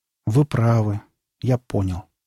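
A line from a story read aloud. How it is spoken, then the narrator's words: Sad speech. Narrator (Russian): грустно сказал Димка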